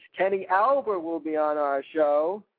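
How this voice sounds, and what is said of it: Imitated sportscaster announcing voice. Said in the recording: “in his great sportscasting voice. ... That's how he says it. I don't say that like that, but that's how he says it.”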